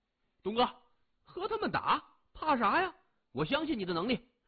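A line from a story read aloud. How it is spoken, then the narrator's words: Loud shout. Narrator (Chinese): 李爽更是大叫出声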